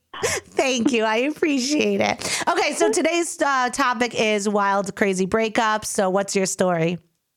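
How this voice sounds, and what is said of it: Long Island accent. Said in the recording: “I feel like Long Island is just not, there's something like harsh and just very unsexy ... I think the Long Island accent is cute.”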